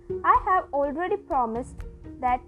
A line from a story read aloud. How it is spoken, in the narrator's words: he said